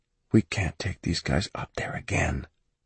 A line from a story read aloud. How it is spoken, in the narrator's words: he whispered